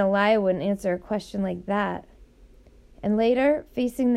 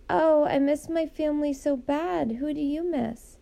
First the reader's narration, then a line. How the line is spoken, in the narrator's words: she'd moan